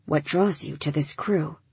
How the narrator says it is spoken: He lowered his voice even more

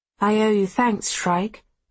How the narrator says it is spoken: she says

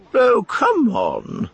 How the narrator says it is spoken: she said scornfully

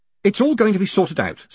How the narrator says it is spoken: said Moist quickly

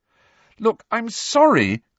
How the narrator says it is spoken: cried Hermione

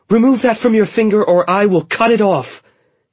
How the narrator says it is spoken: Kestra yelled

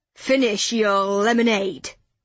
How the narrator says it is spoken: Gavin growled

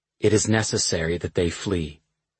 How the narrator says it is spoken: he said quietly

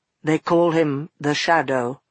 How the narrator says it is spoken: he said in an expressionless voice

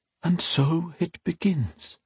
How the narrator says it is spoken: she said in a soft whisper, filled with regret

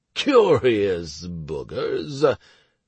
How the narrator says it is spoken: drawled Garanika

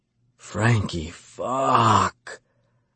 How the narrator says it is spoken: I moaned

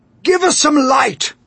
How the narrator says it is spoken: shouted the old green grasshopper

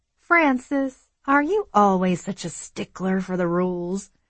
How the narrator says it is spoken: she asked in a teasing voice

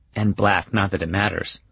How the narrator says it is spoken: she adds in a whisper

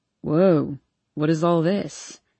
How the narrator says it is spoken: He asks in a raspy, sleep-filled voice

